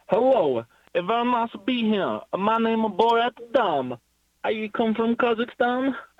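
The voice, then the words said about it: Comedic film character accent impression. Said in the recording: “your Borat impression”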